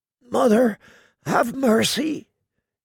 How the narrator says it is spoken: he muttered in a hushed, husky voice beneath the frozen mask

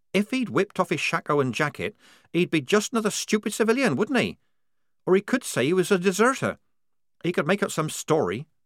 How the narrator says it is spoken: said Polly

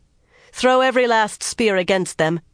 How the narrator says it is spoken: she ordered loudly

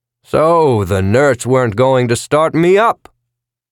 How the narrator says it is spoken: boomed out

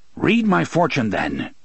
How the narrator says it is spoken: said harshly

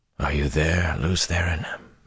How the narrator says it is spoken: he thought, without any hope of answer

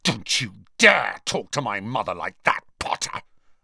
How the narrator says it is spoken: Malfoy snarled

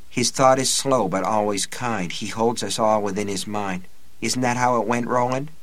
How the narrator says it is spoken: Susanna murmured

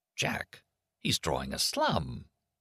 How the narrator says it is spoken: Leo exclaimed

